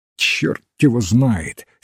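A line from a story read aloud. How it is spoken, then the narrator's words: Angry curt retort. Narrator (Russian): сердито бросил доктор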